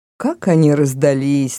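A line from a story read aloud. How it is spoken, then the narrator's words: Mocking voice. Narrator (Russian): насмешливо произнес голос Норта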